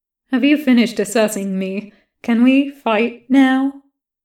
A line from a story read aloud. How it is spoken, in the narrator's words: The soldier laughs